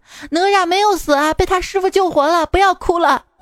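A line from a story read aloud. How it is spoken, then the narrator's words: Distant shout while running. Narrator (Chinese): 远处传来我妈声音，她在后面边跑边喊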